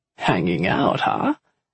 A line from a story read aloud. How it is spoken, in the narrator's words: Alfie chuckled